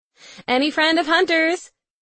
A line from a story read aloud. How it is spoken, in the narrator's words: She yells over the cheering crowd